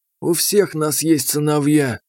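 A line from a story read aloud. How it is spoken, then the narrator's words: Sighing. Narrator (Russian): вздохнул Чупав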